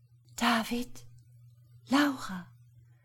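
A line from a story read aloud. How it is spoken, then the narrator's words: Whispering. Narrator (German): flüsterte sie in das Licht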